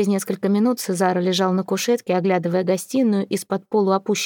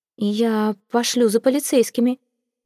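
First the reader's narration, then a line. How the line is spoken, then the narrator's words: Somewhat uncertain. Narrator (Russian): несколько неуверенно произнесла госпожа де Виньоль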